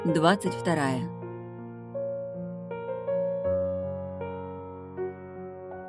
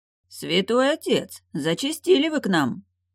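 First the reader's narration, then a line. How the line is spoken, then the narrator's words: Gleeful grinning. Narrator (Russian): Радостно осклабился незнакомец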